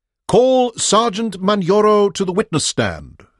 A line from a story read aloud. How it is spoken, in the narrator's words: said Bobby Sampson confidently and loudly